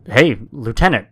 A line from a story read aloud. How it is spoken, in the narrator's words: I yelled out